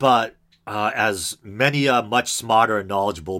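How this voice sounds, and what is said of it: Usual voice. Nothing is said of it.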